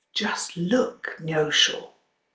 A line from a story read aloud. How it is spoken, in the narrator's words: whispered